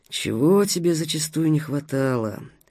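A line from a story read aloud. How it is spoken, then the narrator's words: Grumbling inner voice. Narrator (Russian): проворчал внутренний голос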